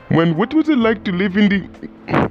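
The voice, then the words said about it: Poor put-on Egyptian accent. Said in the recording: “I do a terrible Egyptian accent”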